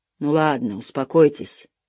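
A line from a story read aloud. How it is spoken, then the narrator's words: Grumbling. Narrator (Russian): проворчал Лоусон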